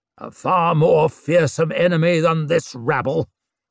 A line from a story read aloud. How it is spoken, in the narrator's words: croaked Lord Marshal Ruxted